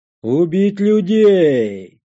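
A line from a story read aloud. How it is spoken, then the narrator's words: Ape roaring from behind. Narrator (Russian): проревел сзади обезьян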